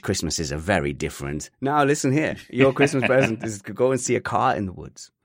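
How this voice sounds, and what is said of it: Generic European accent. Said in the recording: “That's my generic European accent.”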